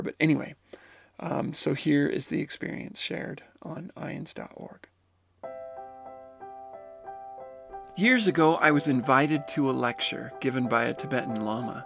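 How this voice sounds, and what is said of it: Voice roughened by a cold. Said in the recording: “you'll have to forgive my voice. I'm still overcoming a cold, or still working my way through a cold”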